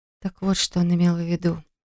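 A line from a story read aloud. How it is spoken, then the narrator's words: Soft whisper. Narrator (Russian): тихо прошептала она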